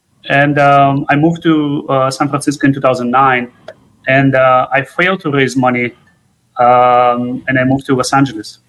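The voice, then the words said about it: Speaker's own noticeable accent. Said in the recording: “Maybe it's my accent again.”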